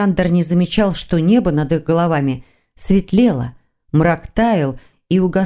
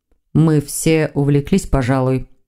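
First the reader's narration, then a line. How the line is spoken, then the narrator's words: Calm. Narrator (Russian): спокойно проговорил Константин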